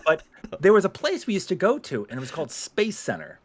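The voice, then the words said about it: Boston accent. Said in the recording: “You sound like you grew up in the Boston area ... my Boston accent, ... sometimes it steps out”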